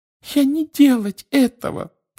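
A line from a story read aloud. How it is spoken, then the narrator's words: Frightened squeak. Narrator (Russian): пропищала она, вращая от страха глазами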